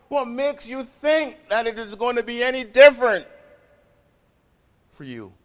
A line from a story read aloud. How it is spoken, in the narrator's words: the Son of God knew separation from God the Father and cried